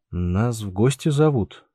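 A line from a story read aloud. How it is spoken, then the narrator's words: Uncertain guess. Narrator (Russian): неуверенно предположил Андрей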